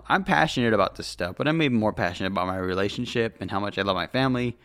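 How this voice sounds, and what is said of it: Tired voice, slightly dry throat. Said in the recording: “If I sound tired right now, I actually am. ... My energy drink wore off. ... My throat's a little dry.”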